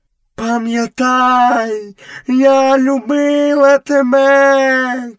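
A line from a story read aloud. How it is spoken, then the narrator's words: Shout. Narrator (Ukrainian): крикнула пантера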